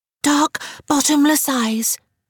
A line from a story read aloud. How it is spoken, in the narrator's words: Frances put in breathlessly